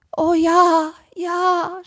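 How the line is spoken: Groaning. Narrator (German): stöhnte Seppel

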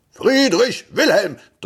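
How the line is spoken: Thundering male voice. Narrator (German): donnerte eine Männerstimme

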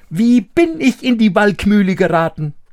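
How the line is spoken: Calling out. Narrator (German): rief er

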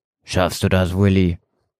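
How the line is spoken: Gentle question. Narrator (German): fragte sanft

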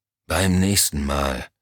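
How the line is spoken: Dry retort. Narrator (German): entgegnete Henry Elm trocken

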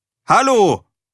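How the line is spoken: Calling out again. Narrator (German): rief Erik ein drittes Mal

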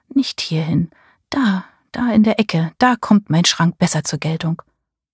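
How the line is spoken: Murmured. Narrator (German): murmelte sie

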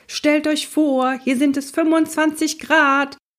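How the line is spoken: Shouted. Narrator (German): schrie Onkel Max

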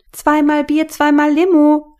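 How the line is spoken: Waitress calling out. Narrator (German): rief ihm die Bedienung zu

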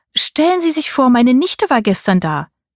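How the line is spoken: Cheerful calling. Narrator (German): rief Tantchen mir fröhlich zu

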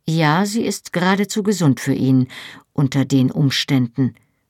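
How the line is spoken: Cold agreement. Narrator (German): pflichtete ich ihm mit kalter Stimme bei

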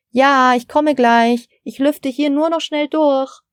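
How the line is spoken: Calling out to another room. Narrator (German): rief Frau Steiner in Richtung Küche

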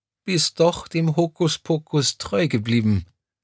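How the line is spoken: Tearful voice. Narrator (German): ergänzte Crescentia Rausch mit verheulter Stimme und strahlte dabei über das ganze Gesicht

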